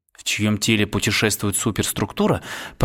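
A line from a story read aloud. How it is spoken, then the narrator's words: Muttering. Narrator (Russian): пробормотал Джим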